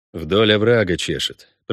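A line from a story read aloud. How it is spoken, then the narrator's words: Mutter. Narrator (Russian): пробормотал Геральт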